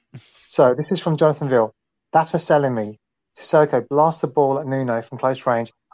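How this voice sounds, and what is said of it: British accent. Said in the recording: “I've actually got a British accent”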